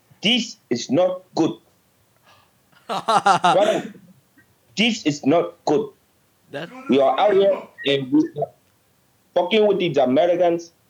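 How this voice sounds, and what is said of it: Put-on Nigerian accent. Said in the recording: “Give us your best Nigerian accent.”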